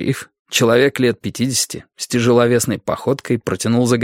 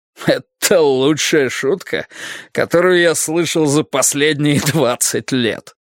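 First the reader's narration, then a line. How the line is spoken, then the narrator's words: Sarcastic laugh. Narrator (Russian): Саркастически рассмеялся сержант Холкомб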